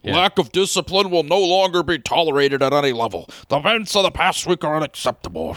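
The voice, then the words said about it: Imitates another person's voice, jostled. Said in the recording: “Your Ziggy Wilf impression sounds like he's trying to talk while running through an ochre patch.”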